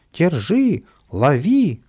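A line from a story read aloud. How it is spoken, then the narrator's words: Old people and nannies shouting. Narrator (Russian): кричали старички и няни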